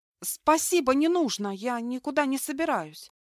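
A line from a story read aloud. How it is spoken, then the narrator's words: Frightened, stunned. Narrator (Russian): испуганно произнесла опешив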